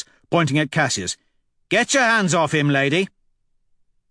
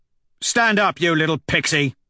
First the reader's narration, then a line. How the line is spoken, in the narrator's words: He barks at Cassius